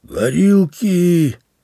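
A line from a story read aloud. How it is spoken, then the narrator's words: Hoarse shout, then coughing. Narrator (Russian): сипло крикнул он и закашлялся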